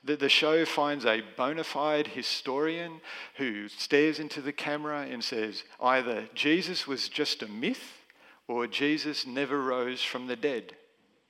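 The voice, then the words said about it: Sarcastic mocking delivery. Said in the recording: “I'm being sarcastic”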